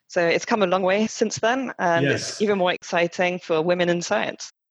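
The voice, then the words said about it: Slight French accent, hint Scottish. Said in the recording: “a slight French accent ... There's that French twinge, I guess, to my accent ... Just a bit. And a little Scottish as well.”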